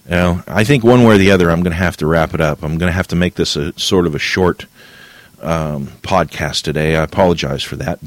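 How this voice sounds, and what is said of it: Strained, tired voice giving out. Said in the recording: “my voice is starting to give out ... my voice is starting to give out on me”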